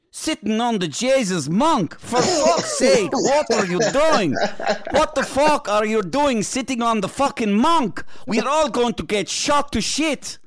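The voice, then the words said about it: Half Irish, half Russian accent. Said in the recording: “your half Irish, half sort of Russian accent”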